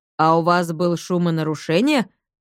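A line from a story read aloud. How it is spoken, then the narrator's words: Stern inquiry. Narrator (Russian): строго осведомился один из полицейских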